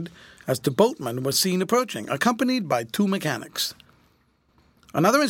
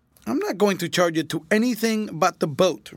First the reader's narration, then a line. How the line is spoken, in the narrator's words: retorted Fred sharply